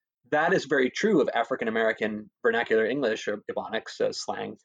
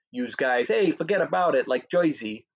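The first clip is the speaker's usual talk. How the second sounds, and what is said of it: Exaggerated New Jersey accent. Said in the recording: “I'm from Jersey, so I say use guys”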